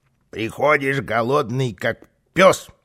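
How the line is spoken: Grumbling. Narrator (Russian): ворчал Карлсон

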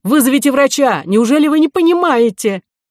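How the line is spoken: Shouting. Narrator (Russian): Он крикнул ей

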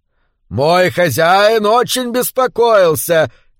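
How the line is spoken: Shouting. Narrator (Russian): кричал Зани

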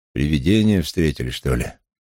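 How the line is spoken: Lazy question. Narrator (Russian): Таксист лениво осведомился

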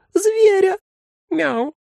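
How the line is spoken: Kitten's squeak. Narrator (Russian): снова пискнул котенок

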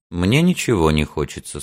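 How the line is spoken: Even, flat voice. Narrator (Russian): сказал он ровным голосом

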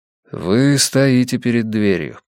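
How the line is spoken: Plain. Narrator (Russian): сказал я

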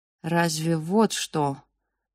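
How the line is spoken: Uncertain father. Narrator (Russian): начал отец неуверенно

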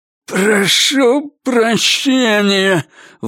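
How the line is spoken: Forced, hateful words. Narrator (Russian): выдавил он с ненавистью

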